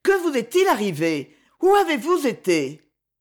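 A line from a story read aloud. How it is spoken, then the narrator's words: Exclaimed. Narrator (French): s'écria-t-elle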